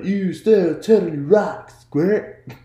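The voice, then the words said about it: Surfer-dude California turtle voice. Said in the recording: “he was doing like a California guy accent ... you sound like the turtle from Finding Nemo”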